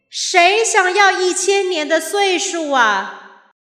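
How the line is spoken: Trembling voice. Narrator (Chinese): 大树颤抖着声音回应了天神的呼喊

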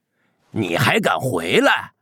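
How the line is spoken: Angry roar. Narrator (Chinese): 老大 吼道

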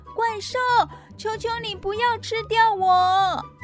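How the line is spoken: Shouting. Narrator (Chinese): 艾利克斯大叫

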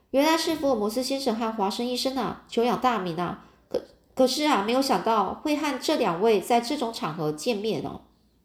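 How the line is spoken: Quiet voice. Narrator (Chinese): 小声的说

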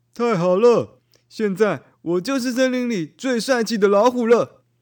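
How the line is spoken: Shouting. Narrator (Chinese): 大老虎一边喊着

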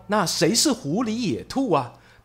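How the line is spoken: Plain. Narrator (Chinese): 他说啊

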